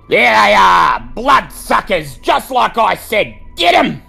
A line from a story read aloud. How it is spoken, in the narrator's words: The old man snarls